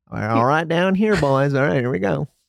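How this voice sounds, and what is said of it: Put-on Southern accent, poorly done. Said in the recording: “Is that like a southern one? ... It's the worst.”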